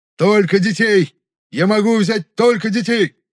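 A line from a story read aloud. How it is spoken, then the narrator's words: Wailing, trembling voice. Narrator (Russian): завопил Хаан, ощущая, как дрожит его голос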